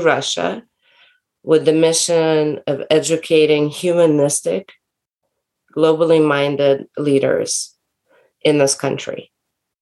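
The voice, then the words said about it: Slight American accent. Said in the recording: “it sounds a little bit like a US American accent”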